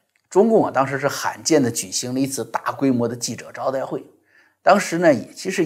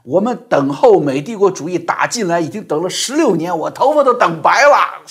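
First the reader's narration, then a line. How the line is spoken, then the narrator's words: Loud shout. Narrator (Chinese): 他他大声喊起来说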